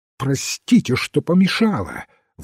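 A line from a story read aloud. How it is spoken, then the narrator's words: Sharp commanding exclamation. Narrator (Russian): воскликнула она так резко, словно приказывала, а не просила прощения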